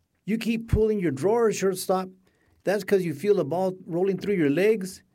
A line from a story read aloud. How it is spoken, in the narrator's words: she shouted